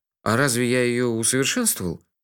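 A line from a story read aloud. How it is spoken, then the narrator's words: Sleepy surprise. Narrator (Russian): сонно удивился я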